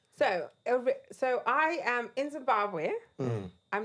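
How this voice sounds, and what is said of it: Southern African accent. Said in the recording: “we noticed your accent ... It's a very Southern African accent.”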